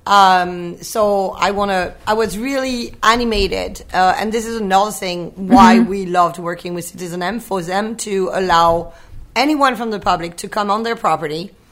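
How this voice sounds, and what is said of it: Strained, worn-out voice. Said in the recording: “my voice sounds horrible”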